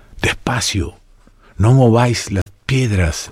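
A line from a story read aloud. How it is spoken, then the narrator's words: Low, worried voice. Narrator (Spanish): recomendaba Gaspari en voz baja, más preocupado que los demás por el resultado de la empresa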